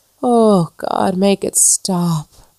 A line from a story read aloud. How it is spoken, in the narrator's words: the woman moaned